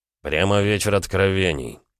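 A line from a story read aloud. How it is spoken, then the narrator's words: Said through gritted teeth. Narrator (Russian): процедил Гаранин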